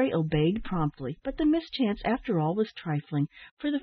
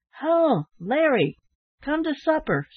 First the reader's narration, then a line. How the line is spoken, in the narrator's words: shouted one